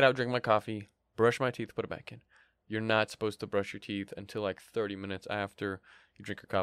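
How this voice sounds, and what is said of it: Usual voice. Nothing is said of it.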